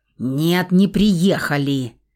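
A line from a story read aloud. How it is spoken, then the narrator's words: Sudden sharp bark. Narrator (Russian): Неожиданно резко гаркнула я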